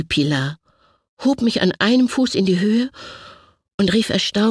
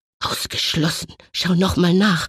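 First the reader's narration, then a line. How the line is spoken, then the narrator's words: Tired murmur. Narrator (German): murmelte erschöpfte Mutter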